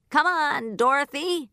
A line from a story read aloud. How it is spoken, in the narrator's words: he shouted